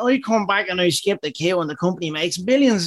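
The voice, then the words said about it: Imitates another person's voice. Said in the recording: “That's really good, man. Wow, is that a good impression?”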